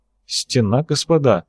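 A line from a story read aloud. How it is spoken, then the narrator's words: Bewildered. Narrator (Russian): растерянно произнес Казимбек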